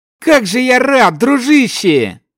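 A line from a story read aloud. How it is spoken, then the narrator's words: Cheerful shout. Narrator (Russian): Повеселев, выкрикнул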